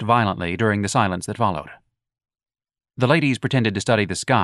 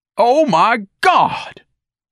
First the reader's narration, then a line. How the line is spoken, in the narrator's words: Ignatius bellowed